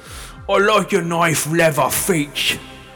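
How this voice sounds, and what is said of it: Put-on Cockney accent. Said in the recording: “just stupid Cockney accent”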